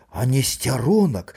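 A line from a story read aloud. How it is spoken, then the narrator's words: Trembling question. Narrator (Belarusian): дрохкім голасам запытаў Макар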